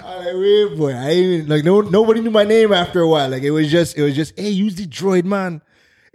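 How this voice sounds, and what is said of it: Slight Trinidadian accent. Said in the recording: “a little Trini accent ... the Trini had to come out”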